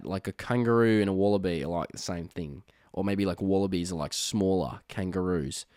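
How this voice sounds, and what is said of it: Over-the-top put-on Australian accent. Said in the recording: “my Australian accent. It's very over the top.”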